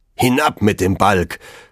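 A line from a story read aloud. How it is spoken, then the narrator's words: Thundering. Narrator (German): donnerte es von seinem Munde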